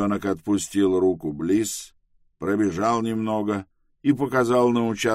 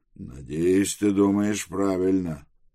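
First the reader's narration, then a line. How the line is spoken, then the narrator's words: Grumbled. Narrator (Russian): буркнул Тревис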